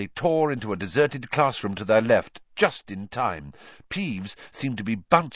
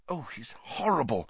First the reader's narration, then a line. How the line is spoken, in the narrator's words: whispered Hermione